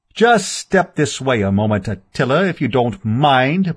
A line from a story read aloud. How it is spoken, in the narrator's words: boomed that well-known, and under certain conditions well-loved, voice